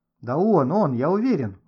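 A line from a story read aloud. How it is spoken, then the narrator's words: Exclaimed. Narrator (Russian): воскликнул Гошка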